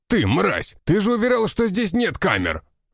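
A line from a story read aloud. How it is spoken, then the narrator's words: Man shouting angrily. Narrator (Russian): прокричал мужчина на управляющего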